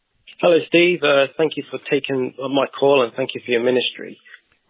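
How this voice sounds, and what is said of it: English accent. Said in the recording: “you're the Texan with the English accent”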